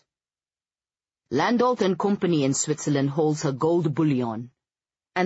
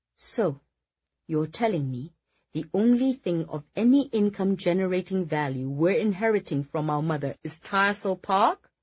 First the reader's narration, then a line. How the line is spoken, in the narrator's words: Felicity said slowly, as if not quite believing her own words